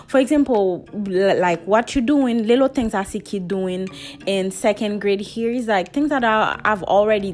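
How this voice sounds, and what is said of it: Speaks with a non-native accent. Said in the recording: “I got an accent ... not my accent”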